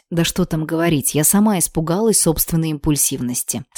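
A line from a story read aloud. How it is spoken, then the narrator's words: Soft. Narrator (Russian): добавила мягко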